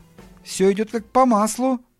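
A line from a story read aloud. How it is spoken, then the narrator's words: Uncertain repetition. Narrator (Russian): неуверенно повторил Пол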